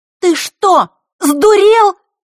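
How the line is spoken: Girl's shout, ringing with agitation. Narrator (Russian): закричала девочка, звенящим от волнения голосом

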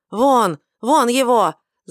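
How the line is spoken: High priest screaming in frenzy. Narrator (Russian): завопил первосвященник вне себя

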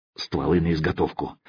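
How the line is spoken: Low-voiced command. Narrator (Russian): вполголоса велел Мазай

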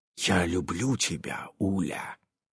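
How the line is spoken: Exhausted whisper. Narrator (Russian): Иннокентий, бессильно откинувшись на подушке, прошептал

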